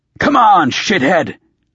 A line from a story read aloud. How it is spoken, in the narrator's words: I growled